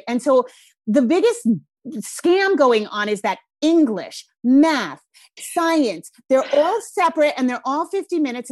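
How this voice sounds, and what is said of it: Thick Rhode Island accent. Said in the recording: “my Rhode Island accent's coming out thick”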